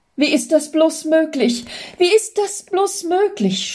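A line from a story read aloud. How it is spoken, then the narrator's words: Stammering in amazement. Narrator (German): stammelte Jürgen immer wieder und staunte sie an wie ein Wunder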